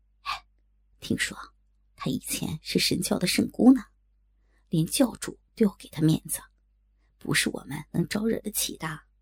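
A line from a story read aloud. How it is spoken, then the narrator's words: Lowered voice. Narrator (Chinese): 他随后压低声音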